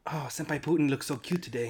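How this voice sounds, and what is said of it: Put-on Japanese accent. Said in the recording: “You got to say it with like a Japanese accent.”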